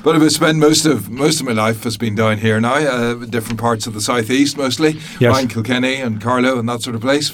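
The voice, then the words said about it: Belfast accent. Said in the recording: “I grew up in Belfast originally, as you can probably hear just about from ... the accent. ... hear the accent”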